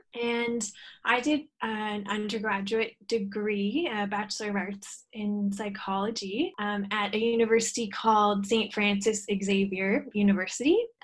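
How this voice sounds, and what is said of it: Canadian English accent. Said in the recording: “you might be able to tell from my accent, I'm from Canada originally”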